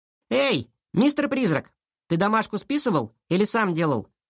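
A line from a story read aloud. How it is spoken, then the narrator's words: Cheerful question. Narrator (Russian): весело поинтересовался Сашка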